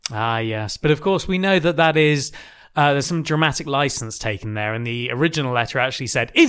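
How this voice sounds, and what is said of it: Usual voice. Nothing is said of it.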